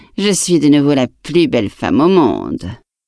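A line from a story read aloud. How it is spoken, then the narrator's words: Queen sneering. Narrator (French): ricana la reine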